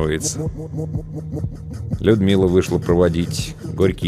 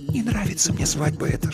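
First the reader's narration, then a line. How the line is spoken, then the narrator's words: Whisper. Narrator (Russian): шепнула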